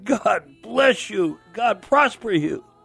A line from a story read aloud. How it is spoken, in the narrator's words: cried